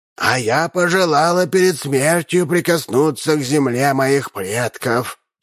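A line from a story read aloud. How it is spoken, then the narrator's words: Creaky, old-fashioned broken Russian. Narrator (Russian): проскрипела графиня Мейндорф на старинном, но неправильном русском языке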